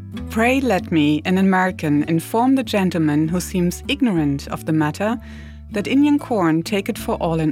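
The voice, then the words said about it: Benjamin Franklin impression, German accent. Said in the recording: “my best Ben Franklin impersonation ... Benjamin Franklin with a German accent”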